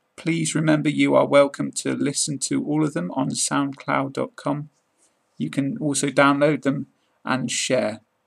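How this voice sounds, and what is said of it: British English accent. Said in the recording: “This was a British accent podcast ... number 30 in my British accent podcast series”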